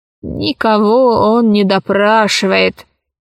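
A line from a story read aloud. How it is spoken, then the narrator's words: Lazy old woman. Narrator (Russian): лениво сказала старуха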